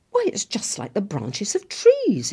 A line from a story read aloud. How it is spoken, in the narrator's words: exclaimed Lucy